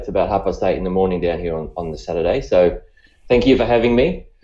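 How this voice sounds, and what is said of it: Australian accent. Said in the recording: “by the accent, you can probably tell I'm I'm I'm from Australia”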